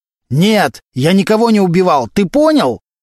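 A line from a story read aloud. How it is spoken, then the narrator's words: Very loud shouting. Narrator (Russian): Валентин настолько громко кричал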